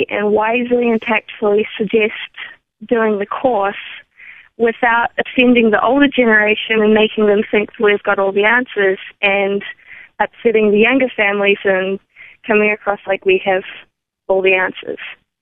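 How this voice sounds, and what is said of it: New Zealand accent. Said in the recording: “you have a great accent. ... that is not Colorado. ... New Zealand.”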